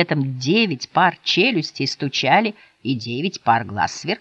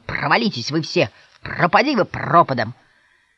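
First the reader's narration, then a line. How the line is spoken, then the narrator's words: Grumbling. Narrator (Russian): он с ворчанием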